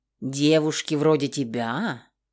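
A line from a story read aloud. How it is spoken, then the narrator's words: Amused snort. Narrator (Russian): Хмыкнул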